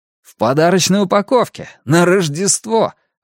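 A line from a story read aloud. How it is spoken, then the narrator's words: Delighted exclamation. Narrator (Russian): воскликнул Клек, скорее в восторге, чем в ужасе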